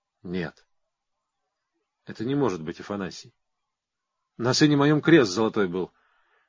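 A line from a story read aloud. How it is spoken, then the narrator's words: Quiet trembling voice. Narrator (Russian): тихо дрожащим голосом говорит Порфирий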